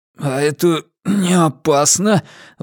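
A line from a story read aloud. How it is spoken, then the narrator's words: Strained forced words. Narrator (Russian): выдавил я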